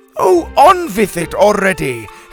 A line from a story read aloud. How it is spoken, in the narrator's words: Helga shouted